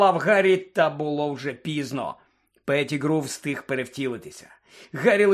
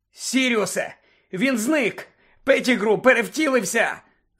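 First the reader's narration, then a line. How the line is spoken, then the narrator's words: Shouted. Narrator (Ukrainian): закричав Гаррі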